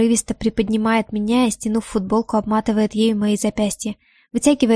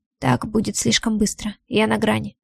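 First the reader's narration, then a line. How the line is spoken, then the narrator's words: Muffled groan, hoarse voice. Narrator (Russian): Ваня глухо стонет и хрипло говорит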